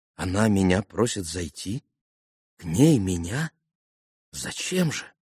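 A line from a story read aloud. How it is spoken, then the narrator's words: Deeply surprised mutter. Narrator (Russian): С глубоким удивлением пробормотал Алеша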